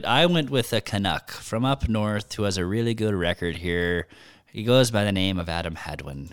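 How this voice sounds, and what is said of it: Put-on Scottish accent. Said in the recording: “talking like a Scotsman”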